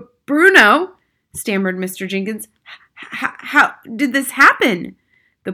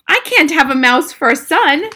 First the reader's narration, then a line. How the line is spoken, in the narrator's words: shrieked Mr